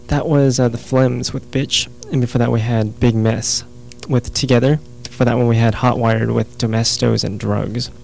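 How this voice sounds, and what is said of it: Hoarse, fading voice. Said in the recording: “I'm losing my voice again ... before I lose it completely”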